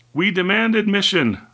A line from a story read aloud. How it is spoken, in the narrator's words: shouted the younger of the two men